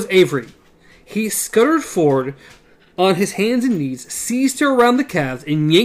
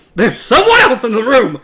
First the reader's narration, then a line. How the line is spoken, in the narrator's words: Roland shouted